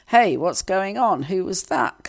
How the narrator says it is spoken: Kamala asked

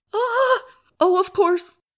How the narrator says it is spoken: she cried hysterically

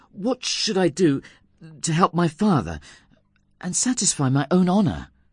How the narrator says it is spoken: anxiously asked him

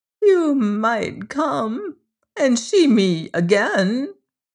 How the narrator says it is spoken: replied Miss Lefane wistfully

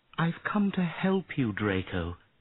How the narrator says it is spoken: she said sadly

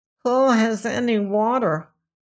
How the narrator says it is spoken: asked the Whimsy chief, gasping and choking

